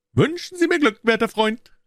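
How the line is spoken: Calling out. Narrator (German): rief er

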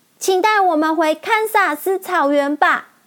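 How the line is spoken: Loud, reluctant farewell. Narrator (Chinese): 依依不舍地，大声地说

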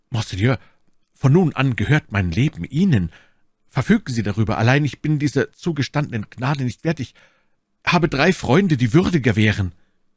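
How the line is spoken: Stammering. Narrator (German): D'Artagnan stürzte dem Kardinal zu Füßen und stammelte

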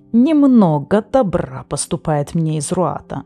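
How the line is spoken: Growling voice. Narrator (Russian): сказал Фекс голосом, больше похожим на рычание

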